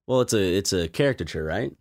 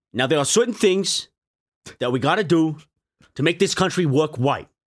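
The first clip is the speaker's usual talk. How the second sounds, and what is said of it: Imitates another person's voice, Brooklyn/Boston accent. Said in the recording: “You're giving them too much of a Brooklyn, like a Boston kind of.”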